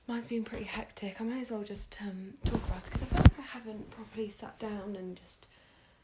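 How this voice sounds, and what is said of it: Tired-sounding voice. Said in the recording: “you can tell like my voice is just, I'm just tired. ... I'm literally so exhausted.”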